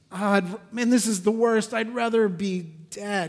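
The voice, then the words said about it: Whiny, pouting childlike voice. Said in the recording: “He sounds like a six-year-old. ... full-out six-year-old pouting”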